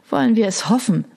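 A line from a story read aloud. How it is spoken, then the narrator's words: Sighed. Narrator (German): seufzte Sassa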